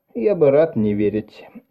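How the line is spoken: Sighing. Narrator (Russian): Эван вздохнул

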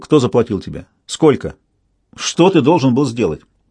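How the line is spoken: Sharp question. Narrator (Russian): он резко спросил

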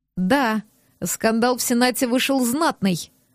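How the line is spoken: Wry snort. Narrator (Russian): хмыкнул

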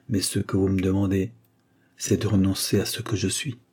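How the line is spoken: Murmured. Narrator (French): murmura-t-il

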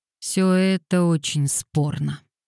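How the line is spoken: Gloomy. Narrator (Russian): мрачно сказала Дейзи

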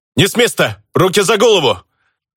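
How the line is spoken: Group yelling. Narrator (Russian): Заорали ребята в знакомой форме

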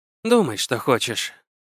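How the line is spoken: Tired. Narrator (Russian): устало сказала Вика

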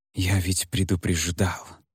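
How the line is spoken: Barely audible whisper. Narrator (Russian): едва слышно прошептал он

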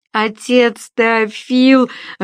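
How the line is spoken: Whining child. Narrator (Russian): жалобно заныл малыш

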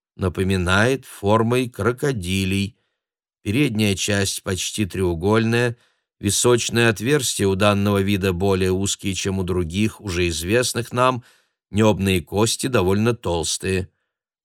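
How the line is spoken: Surprisingly even tone. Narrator (Russian): произносит он на удивление ровным тоном

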